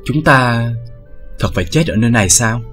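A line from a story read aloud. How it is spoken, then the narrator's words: Sighing after crying. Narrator (Vietnamese): Bích Dao thôi không khóc nữa, thở dài nói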